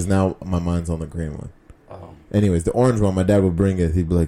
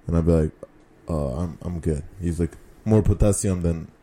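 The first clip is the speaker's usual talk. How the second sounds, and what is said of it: Put-on Russian accent. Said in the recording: “I don't know why I'm doing a Russian accent”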